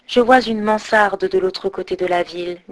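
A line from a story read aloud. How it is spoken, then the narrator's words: Plain. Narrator (French): dit le prince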